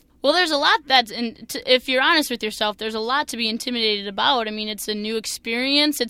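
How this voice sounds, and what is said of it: Thick Minnesotan accent. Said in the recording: “being the Minnesotan girl with my thick Minnesotan accent”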